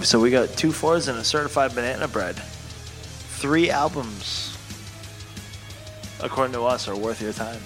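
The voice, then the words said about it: Strained, hoarse voice. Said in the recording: “Losing my voice from all my rants.”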